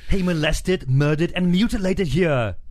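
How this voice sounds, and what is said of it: Imitates another person's voice. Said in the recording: “my Arnold Schwarzenegger impression”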